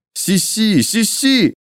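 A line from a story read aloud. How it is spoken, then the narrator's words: Grieving cry. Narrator (Russian): горестно выкрикнул кто-то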